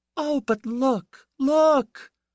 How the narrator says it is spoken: cried Piera, not calm

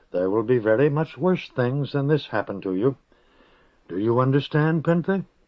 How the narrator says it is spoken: Kossel's voice was soft, but not kindly

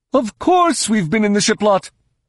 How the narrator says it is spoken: snapped

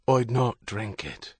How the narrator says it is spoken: Herity whispered

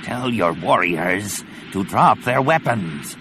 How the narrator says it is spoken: the Barabel rasped

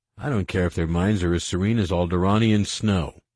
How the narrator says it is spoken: Han growled

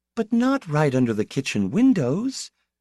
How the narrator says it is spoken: she said tenderly

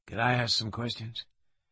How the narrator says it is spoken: His voice low and husky, Lewis said

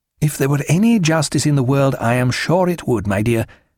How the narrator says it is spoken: said Stephen

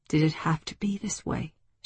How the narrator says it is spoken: she whispered

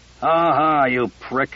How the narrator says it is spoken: Casey growled

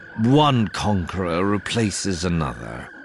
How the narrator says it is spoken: Singier says, lip tugged up in a characteristic sneer

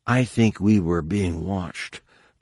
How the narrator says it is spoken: Tahiri whispered back

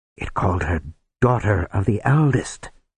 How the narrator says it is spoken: the wizard whispered

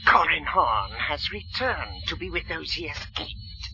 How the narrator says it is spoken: she hissed

